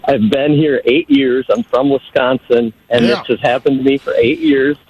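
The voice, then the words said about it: Northern US accent. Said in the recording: “my northern accent”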